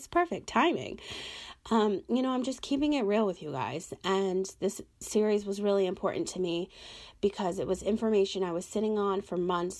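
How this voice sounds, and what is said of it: Hoarse, fading voice. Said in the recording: “Excuse me as I'm losing my voice.”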